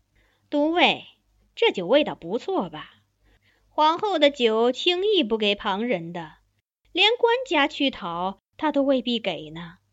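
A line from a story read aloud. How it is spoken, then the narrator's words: Smiling. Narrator (Chinese): 含笑道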